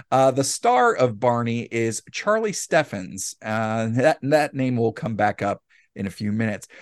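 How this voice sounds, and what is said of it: Usual voice. Nothing is said of it.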